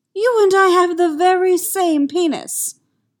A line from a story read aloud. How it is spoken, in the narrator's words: he exclaims